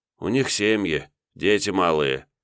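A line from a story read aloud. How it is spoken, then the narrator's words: Sorrowful sigh. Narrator (Russian): горестно вздохнул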